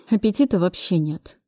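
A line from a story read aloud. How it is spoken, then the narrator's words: Mutter. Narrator (Russian): пробормотал Кравцов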